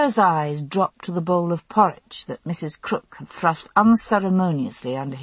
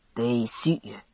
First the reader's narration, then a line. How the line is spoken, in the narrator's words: he mumbled